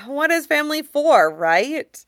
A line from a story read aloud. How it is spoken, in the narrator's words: Xiang Qinghua says cheerfully, and a little miserably